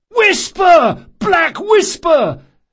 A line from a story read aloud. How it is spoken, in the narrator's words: at the top of his lungs